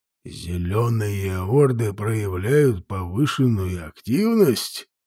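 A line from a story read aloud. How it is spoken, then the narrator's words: Thoughtful mutter. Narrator (Russian): задумчиво пробормотал Инфилига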